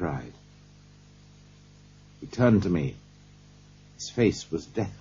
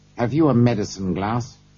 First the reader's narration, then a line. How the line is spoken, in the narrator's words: he asked